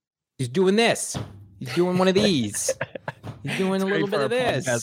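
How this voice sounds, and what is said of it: Usual voice. Nothing is said of it.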